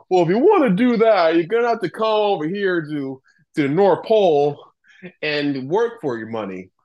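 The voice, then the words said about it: Imitates another person's voice. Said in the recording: “I don't know why I'm making it sound like Dr. Phil ... I'm going to keep doing that voice.”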